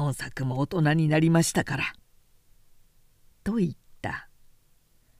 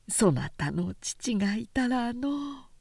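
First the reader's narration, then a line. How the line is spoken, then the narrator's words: Tearful lament. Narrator (Japanese): と帰って泣いてばかりいる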